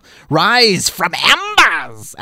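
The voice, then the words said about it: Skeletor-like villain voice. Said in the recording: “That's kind of more Skeletor-like.”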